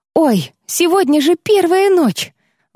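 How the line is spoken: Sudden exclamation. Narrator (Russian): Вдруг воскликнула Тилья

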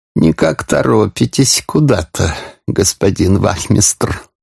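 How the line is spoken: Honeyed sing-song voice. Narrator (Russian): медовым голосом пропел Порфирий Петрович

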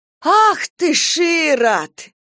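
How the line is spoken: Exclaimed. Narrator (Russian): воскликнула Ольга Егоровна

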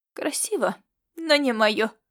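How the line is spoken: Skeptical snort. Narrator (Russian): Она скептически хмыкнула

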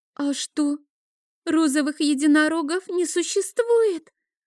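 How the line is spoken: Small trembling voice. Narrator (Russian): дрожащим голоском спросила Оливия

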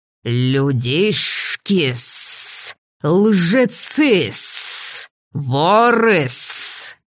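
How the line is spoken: Lizards hissing in unison. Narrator (Russian): Раздалось дружное шипение стремительно приближавшихся ящеров

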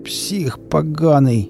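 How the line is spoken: Moaning. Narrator (Russian): простонал Валера

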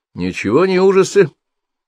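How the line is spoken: Stern interruption. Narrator (Russian): строго остановил его Петр Сергеевич

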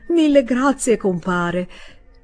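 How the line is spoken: Exclaimed while chewing. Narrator (Italian): esclamò Permaneder masticando

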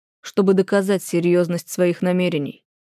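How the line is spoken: Confident steely voice. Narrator (Russian): говорит Анкезов уверенным стальным голосом

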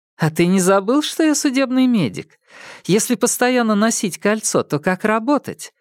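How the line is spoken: Laughing. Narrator (Russian): рассмеялась Лэйжун

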